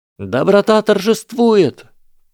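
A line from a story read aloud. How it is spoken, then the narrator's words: Exclamation. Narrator (Russian): Воскликнула генерал Грейнджер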